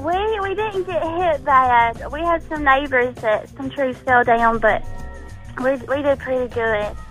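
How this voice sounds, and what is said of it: Southern US South Carolina accent. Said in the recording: “This is South Carolina. We do it in a different way. We're Southern people. ... I love your accent. ... I could listen to you talk all day long.”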